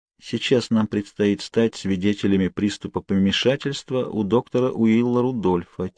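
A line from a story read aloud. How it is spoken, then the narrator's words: Quiet grumble. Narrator (Russian): тихо проворчала Кейт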